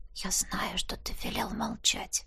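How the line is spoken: Whisper. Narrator (Russian): шепотом произнесла

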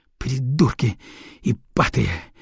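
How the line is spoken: Hissing. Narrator (Russian): прошипел Арнелла

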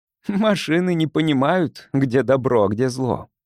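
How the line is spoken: Laughing. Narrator (Russian): рассмеялся Кирон

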